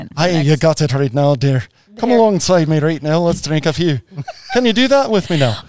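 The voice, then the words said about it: Put-on Irish accent, uncertain attempt. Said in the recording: “I want to hear an Irish accent ... I don't know what accent that was”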